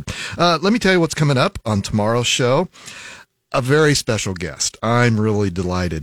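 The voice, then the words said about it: Voice slightly off from head cold. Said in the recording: “Forgive my voice. I got a little bit of a head cold. So if you hear something a little funky”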